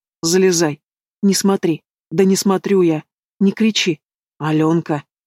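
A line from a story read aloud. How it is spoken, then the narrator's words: Trembling plaintive sob. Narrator (Russian): Она задрожала и жалобно всхлипнула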